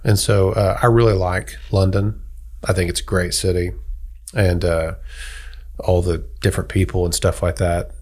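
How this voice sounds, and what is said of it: American accent. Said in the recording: “people hear my accent. They might just see me as an American”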